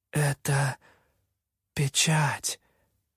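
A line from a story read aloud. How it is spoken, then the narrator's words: Almost a whisper. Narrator (Russian): закончила она почти шепотом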